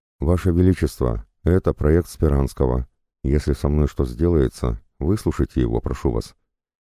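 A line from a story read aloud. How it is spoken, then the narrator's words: Plain. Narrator (Russian): сказал Безбородко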